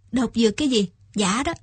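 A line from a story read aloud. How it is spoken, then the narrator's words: Smiling. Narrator (Vietnamese): Viên Quán Nam mỉm cười nói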